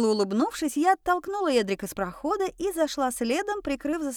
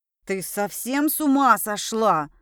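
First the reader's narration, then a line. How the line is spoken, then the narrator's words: Sudden roar. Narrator (Russian): Вдруг взревел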